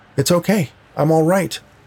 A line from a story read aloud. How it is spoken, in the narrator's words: shouted